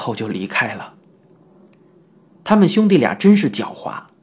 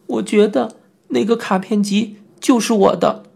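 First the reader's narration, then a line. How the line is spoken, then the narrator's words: Sobbing. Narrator (Chinese): 我抽泣的只说了一句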